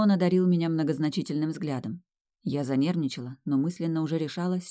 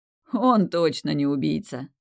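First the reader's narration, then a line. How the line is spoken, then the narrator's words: Bursting out laughing. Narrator (Russian): расхохотался Тимеон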